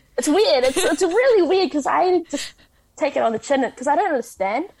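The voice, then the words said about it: Pacific Island New Zealand accent. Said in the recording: “my English accent isn't very Kiwi, it's quite a Pacific Island accent”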